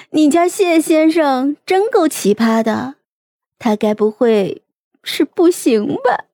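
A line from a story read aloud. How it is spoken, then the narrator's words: Soft, shaking with laughter. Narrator (Chinese): 于梦瑶笑得花枝乱颤，轻声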